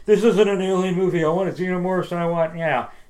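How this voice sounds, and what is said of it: Impression of whiny internet fans. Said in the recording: “your impression of douchey internet people ... I think it's a really good impression ... That was pretty spot on”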